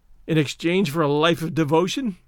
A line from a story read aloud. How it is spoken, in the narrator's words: I sneered